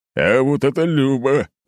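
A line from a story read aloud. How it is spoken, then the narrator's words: Booming laughter. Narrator (Russian): гулко расхохотался глава поселения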